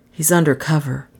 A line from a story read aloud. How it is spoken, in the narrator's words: Doan breathed